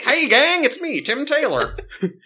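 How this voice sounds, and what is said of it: Imitates another person's voice. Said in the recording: “your Tim Taylor is, like, on point... My Jiminy Cricket impression is the same as my Tim Taylor impression.”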